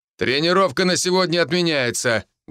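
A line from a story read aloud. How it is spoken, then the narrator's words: Loud instructor announcement. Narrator (Russian): громко сообщил инструктор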